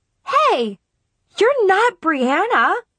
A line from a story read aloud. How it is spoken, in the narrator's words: suddenly blurted